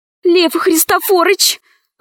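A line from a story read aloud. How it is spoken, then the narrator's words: Pleading. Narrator (Russian): взмолилась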